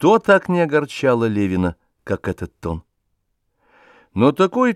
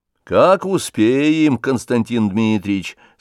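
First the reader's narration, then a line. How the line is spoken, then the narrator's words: Plain. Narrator (Russian): сказал приказчик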